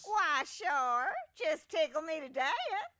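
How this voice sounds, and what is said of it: Southern accent character voice. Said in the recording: “with a southern accent”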